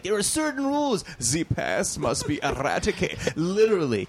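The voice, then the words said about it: Put-on German accent. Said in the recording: “I had to do a German accent ... I'm doing a German accent.”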